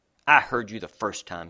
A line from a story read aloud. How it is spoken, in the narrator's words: he snapped